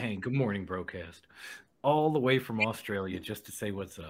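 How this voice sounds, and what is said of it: Put-on Australian accent. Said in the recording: “That was the King worst Australian accent I've ever heard ... it was pretty damn good”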